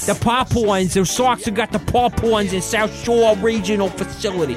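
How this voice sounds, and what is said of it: Put-on Boston accent. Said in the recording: “So is a Boston accent? ... That's what she sounded like.”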